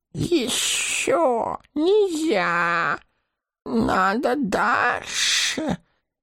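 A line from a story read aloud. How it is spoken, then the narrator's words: Hissing. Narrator (Russian): прошипел он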